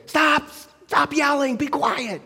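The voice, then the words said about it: Screaming, yelling. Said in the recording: “I'm screaming at my kids to stop screaming.”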